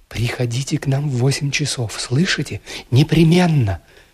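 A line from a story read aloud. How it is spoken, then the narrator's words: Rapid whisper. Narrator (Russian): она скороговоркой и с прежним ласковым выражением в глазах шепнула мне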